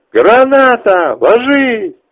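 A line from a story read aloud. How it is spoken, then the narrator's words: Shouted. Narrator (Russian): Ближайший к нам сталкер что-то прокричав второму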